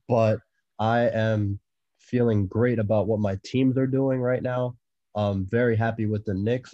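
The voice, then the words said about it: Slightly nasal, congested voice. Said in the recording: “You might hear it in my voice. I'm a little nasally”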